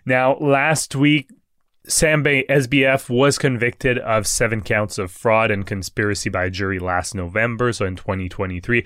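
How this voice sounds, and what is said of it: French accent, congested voice. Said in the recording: “just kind of hard when you're all stuffed up. And also, with my French accent.”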